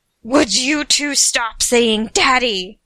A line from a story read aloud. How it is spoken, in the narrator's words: Uther yelled back up from his huddled corner